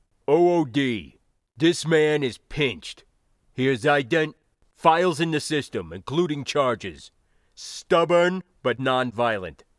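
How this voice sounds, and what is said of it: Deep-voiced officer character. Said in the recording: “the arresting officer's deep voice”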